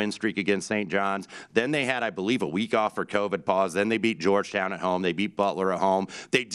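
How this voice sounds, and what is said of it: Usual voice. Nothing is said of it.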